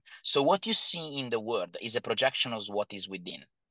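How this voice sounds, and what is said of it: Non-native English accent. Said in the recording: “Sorry, my accent.”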